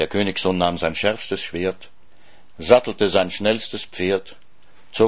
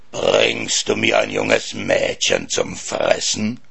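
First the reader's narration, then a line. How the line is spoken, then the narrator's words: Dragon hissing. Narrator (German): fauchte der Drache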